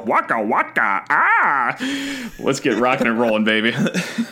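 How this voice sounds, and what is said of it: Comic character voice impression. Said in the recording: “Your Huggy Bear impression”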